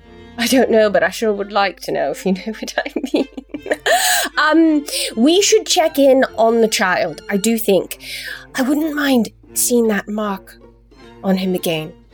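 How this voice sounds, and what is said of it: Inconsistent put-on character accent. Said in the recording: “My accent is all over the place.”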